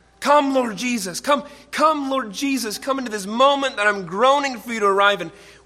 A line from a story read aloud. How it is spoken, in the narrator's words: groaning, cries out